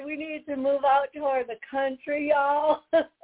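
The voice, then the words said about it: Poor put-on Southern accent. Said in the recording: “my bad accent, my bad Southern accent. It's horrible”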